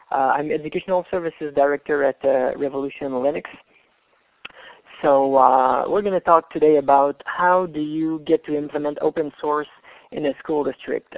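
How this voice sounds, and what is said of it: Canadian accent. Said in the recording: “I'm from Canada, as you guessed by the accent.”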